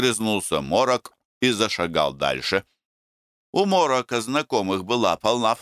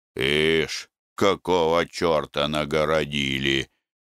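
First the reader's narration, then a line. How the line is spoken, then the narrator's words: Grumbling. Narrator (Russian): проворчал он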